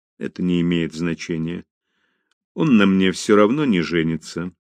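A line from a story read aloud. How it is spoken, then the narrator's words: Calm, fearless. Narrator (Russian): спокойно сказала Мэри Бет, сама удивляясь своему бесстрашию перед бурным гневом отца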